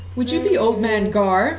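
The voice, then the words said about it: Put-on lilting accent. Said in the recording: “I say in my lilting accent”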